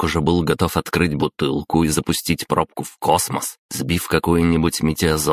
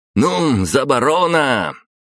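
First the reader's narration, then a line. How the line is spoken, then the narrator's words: Cheerful shout. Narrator (Russian): он весело выкрикнул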